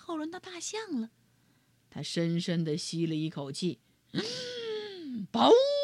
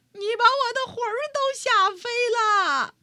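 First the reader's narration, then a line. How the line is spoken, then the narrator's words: Old woman shouting. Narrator (Chinese): 瘦小的老妇人喊起来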